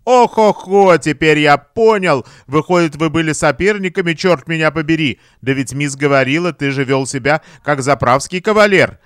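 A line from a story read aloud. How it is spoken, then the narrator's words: Loud laughing realization. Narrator (Russian): Он громко рассмеялся, ему все стало ясно, он сказал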